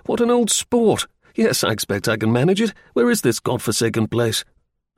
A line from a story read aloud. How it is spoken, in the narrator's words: exclaimed